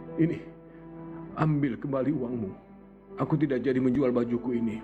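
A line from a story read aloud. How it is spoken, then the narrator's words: Cornered, pleading, humbled voice. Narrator (Indonesian): Merasa terpojok dengan suara memelas, si sombong menundukkan kepala berkata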